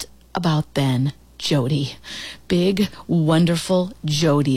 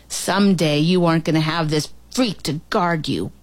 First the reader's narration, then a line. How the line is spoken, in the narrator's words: Barton snarled